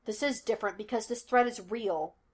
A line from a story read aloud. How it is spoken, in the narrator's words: Laster snapped